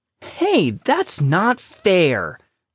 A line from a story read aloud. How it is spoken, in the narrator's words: Jake exclaimed